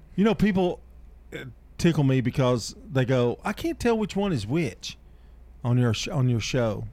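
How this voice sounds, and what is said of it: Slight country accent. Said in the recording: “I'm the country one. I have a little bit of a country accent.”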